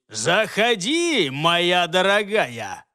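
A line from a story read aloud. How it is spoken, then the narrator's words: Loud, room-filling voice. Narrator (Russian): громко проговорил он на всю комнату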